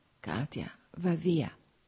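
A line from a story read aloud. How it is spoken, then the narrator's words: Whispering. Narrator (Italian): sussurrò ancora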